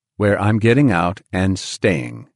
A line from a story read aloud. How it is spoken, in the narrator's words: John said firmly